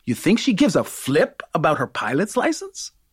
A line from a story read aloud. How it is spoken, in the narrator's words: I laugh